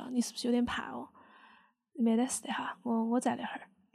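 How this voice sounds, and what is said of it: Sichuan dialect, soothing tone. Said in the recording (Chinese): “用四川话嘛，就用我的方言对我的小孩说”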